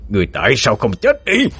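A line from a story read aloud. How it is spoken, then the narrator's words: Loud shout. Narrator (Vietnamese): Bóng đen hét lớn lên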